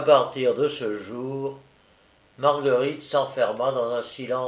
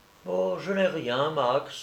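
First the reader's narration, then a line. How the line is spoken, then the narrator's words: Young woman, gentle reply. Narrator (French): répondit doucement la jeune femme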